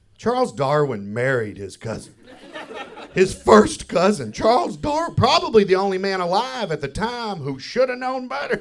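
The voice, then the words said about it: Southern Kentucky accent. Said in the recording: “people hear my accent and they automatically pigeonhole me, redneck, especially when I'm far away from the South ... You're from Kentucky?”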